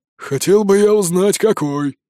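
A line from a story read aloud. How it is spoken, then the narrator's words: Grumble. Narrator (Russian): проворчал Торстейн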